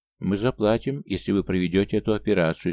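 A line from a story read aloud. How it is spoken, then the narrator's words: Nobleman, calm. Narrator (Russian): спокойно сказал вельможа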